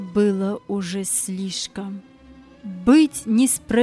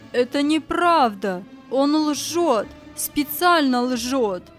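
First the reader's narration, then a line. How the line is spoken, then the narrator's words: Furious shouting. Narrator (Russian): сверкая глазами, закричал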